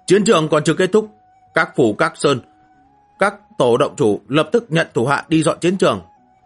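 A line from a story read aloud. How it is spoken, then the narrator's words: Loud furious shout. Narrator (Vietnamese): Hắn thi pháp cất cao giọng phẫn nộ quát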